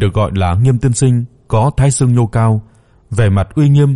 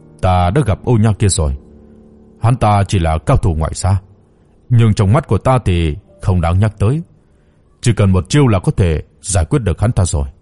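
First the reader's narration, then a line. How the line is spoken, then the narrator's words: Cold scornful snort. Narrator (Vietnamese): Nghiêm tiên sinh lạnh lùng khịt mũi rồi nói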